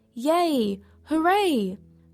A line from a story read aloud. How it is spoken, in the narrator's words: her colony shouted